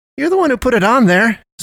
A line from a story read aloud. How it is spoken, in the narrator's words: Sam exclaimed